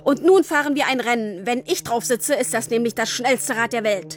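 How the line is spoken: Called out. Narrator (German): rief er

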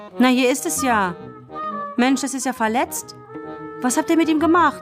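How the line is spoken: Sudden call. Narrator (German): rief plötzlich

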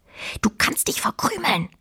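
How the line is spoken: Quiet hiss. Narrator (German): zischte Fine leise

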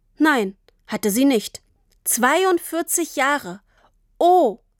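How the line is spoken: Plain. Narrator (German): sagte Tini

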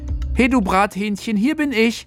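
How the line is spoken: Exuberant shout. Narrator (German): Felix rief übermütig

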